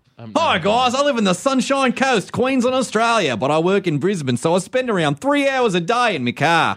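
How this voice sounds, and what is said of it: Put-on Australian accent. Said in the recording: “I just added the Australian accent”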